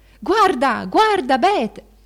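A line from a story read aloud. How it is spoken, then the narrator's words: Chorus shouting. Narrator (Italian): un coro gridava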